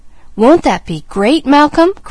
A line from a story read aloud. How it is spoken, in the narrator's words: cried James Jr